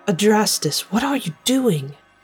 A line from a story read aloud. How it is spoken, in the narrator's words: I whispered frantically